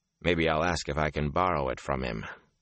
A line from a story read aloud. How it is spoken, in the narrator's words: he added dryly